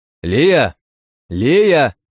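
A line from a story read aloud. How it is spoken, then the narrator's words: Shouted repeatedly. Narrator (Russian): крикнул я пару раз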